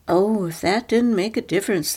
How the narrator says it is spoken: exclaimed to each other

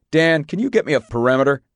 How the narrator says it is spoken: barked the radio

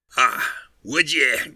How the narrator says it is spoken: growled Montmorency

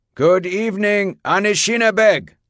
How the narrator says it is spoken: he said in a booming voice

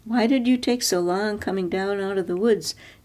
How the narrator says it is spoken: Dieter had said

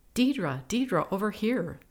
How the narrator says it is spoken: the girl called out excitedly

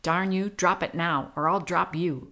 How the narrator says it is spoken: Pete barked

